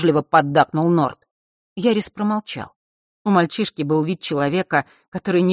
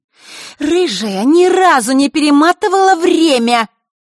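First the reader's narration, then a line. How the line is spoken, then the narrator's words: Angry shout. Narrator (Russian): Зло сощурившись, прокричала она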